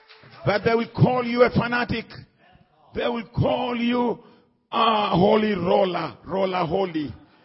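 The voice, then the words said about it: Heavy accent. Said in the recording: “my accent is too heavy”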